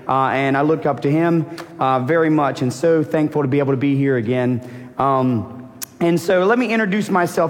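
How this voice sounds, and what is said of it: Hoarse, worn-out voice. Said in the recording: “my vocal cords are a little bit gone ... my voice is a little gone”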